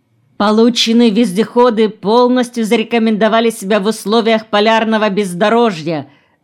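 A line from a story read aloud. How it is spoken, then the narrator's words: Practiced cheerful shout. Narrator (Russian): с натренированной бодростью прокричал Фурдецкий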